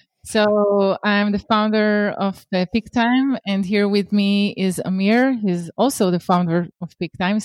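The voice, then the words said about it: Hebrew accent. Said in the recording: “I'm bringing the Hebrew accent to the table.”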